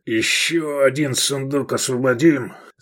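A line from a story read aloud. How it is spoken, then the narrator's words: Hoarse voice. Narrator (Russian): сказал он хрипло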